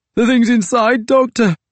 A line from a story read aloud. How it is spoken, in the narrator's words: Lloyd cried through chattering teeth